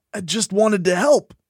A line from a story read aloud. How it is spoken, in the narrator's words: I wheezed